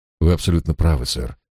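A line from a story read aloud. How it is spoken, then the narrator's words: Calm reply. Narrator (Russian): спокойно ответил эконом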